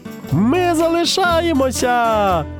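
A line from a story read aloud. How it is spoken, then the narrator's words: Joyful shout. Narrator (Ukrainian): радісно закричала Маша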